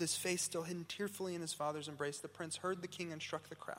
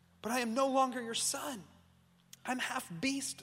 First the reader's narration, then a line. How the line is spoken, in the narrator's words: sobbed the prince bitterly